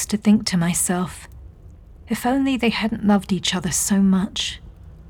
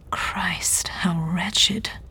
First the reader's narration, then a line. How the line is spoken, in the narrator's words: he said, his voice barely above a whisper